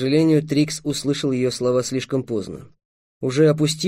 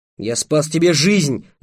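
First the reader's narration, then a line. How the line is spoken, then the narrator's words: Shouting. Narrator (Russian): закричал Трикс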